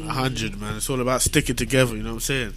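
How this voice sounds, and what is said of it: Deep male voice. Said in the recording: “My voice sounds deep ... It is deep.”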